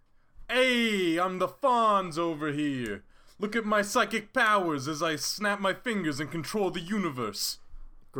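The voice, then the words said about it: Fonzie character impression. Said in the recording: “I'll do a perfect Fonzie impression.”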